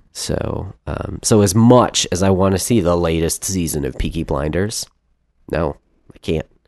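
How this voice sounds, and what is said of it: Congested voice. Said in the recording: “It's again my congestion”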